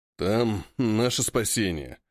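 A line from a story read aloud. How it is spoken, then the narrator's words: Snort. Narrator (Russian): хмыкнул товарищ Че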